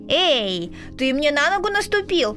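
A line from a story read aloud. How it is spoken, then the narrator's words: Squeal. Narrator (Russian): взвизгнул звездочет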